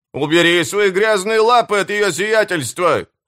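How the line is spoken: Barked. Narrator (Russian): рявкнул Смью

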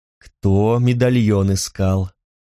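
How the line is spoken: Almost tender, smiling. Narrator (Russian): Луар улыбнулся почти что ласково

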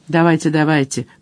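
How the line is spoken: Muttered. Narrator (Russian): пробурчал Мадж

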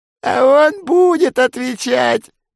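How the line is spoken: Quavering cooing old woman. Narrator (Russian): Дребезжащим голосом проворковала двугорбая старуха

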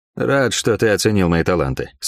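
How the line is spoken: Dry. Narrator (Russian): сухо сказал я

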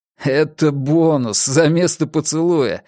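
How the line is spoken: Joyful laughter. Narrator (Russian): расхохотался я от радости

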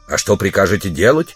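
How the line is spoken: Stern question. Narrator (Russian): строго спросил его спутник

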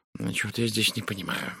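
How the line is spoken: Muttering. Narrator (Russian): бормотал Пуаро

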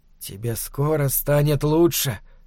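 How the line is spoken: Whispered. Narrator (Russian): шептал он

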